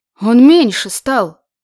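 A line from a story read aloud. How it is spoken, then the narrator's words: Frightened woman. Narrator (Russian): проговорила Марьяна испуганно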